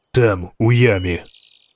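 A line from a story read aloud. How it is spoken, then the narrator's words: Calm. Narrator (Ukrainian): сказав він спокійно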